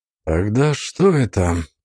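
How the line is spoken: Mumbling. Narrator (Russian): пробормотал Нандер

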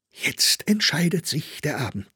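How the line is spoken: Whispered. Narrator (German): flüsterte sie ihm zu

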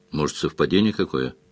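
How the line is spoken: Gloomy, doubtful suggestion. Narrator (Russian): уныло предположил Сварог, сам в совпадение не веривший

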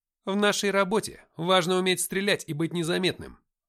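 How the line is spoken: Displeased snap. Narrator (Russian): Недовольно огрызнулся мангуст

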